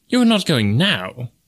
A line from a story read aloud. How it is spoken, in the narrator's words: exclaimed the wagerer